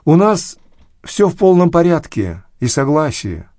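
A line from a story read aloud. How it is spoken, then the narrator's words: Said happily. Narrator (Russian): радостно говорили они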